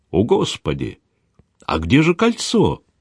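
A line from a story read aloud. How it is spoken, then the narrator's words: Astonished exclamation. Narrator (Russian): изумленно воскликнул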